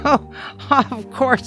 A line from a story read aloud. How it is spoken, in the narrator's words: I laughed